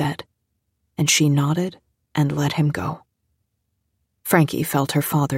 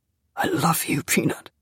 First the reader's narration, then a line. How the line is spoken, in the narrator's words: he said in a rough voice